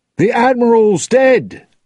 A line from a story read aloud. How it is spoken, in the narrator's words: one of the Dutchman's sailors shouted